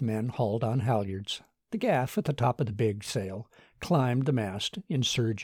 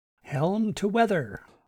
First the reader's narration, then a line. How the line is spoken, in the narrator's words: called out Martin